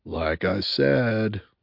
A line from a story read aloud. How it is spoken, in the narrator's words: muttered Bunny